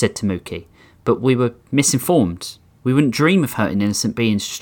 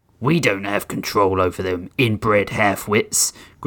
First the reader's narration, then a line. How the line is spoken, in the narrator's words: Grissom sneered